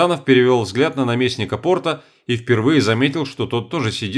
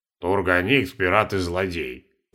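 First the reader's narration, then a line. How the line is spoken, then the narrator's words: Pointedly calm reply. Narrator (Russian): подчеркнуто спокойно ответил наместник порта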